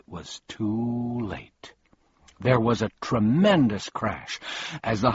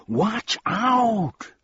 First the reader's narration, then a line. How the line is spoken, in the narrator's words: began Milo, and then he yelled